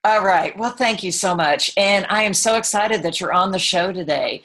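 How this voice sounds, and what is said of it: Texan accent. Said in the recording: “I am from Texas. I don't know if you can hear that in my accent”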